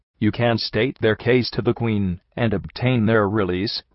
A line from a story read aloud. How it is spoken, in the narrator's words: replied I